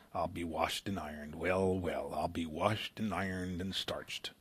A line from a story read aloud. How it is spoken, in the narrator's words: When excited or surprised by anything, he muttered